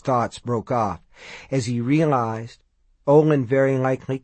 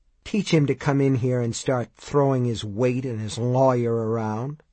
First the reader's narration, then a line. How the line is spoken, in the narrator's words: Olin says